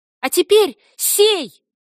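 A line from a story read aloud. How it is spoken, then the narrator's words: High childish shout. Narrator (Russian): крикнула она высоким детским голоском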